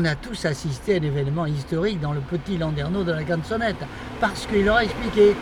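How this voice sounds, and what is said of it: Usual voice. Nothing is said of it.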